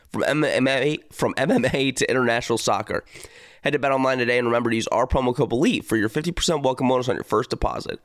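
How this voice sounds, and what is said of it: Voice sounds sick, under the weather. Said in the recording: “I am under the weather. If you are a listener of this show, you can hear it in my voice. I am not feeling good”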